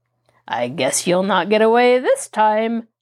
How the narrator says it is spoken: Tom laughed evilly

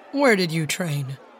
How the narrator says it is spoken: ask in an undertone

